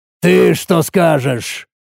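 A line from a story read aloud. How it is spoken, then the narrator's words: Very irritated. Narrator (Russian): спросил я крайне раздраженно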